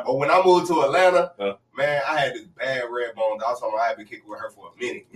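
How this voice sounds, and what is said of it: Country Southern American accent. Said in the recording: “I'm thinking she's talking about my accent... I do talk country.”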